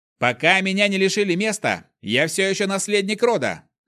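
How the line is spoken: Yelled over howling. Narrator (Russian): Заорал, перекрикивая его вой

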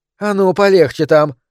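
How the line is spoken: Sharp rebuke, woman. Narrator (Russian): прикрикнула на него рыжеволосая женщина

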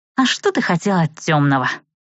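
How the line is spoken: Quiet snort. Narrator (Russian): тихонько хмыкнула Адель

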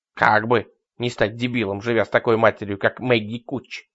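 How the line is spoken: Snorting. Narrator (Russian): фыркнул Ларри

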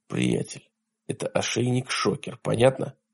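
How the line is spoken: Whispered. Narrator (Russian): прошептал он

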